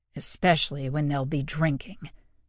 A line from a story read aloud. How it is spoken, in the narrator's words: Prentice growled